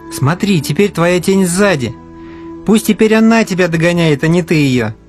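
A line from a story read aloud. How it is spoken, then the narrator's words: Laughing. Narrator (Russian): засмеялся Алеша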